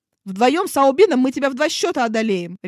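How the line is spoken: Barked. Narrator (Russian): рявкнул Неджа

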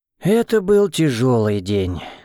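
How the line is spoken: Exhaled. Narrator (Russian): выдохнул я

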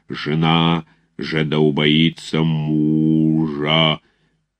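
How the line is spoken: Booming, deep, terrifying voice. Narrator (Russian): Громадный протодиакон трубил нечеловечески густым, могучим и страшным голосом

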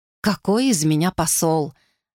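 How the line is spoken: Sighing. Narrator (Russian): вздохнула Думаи

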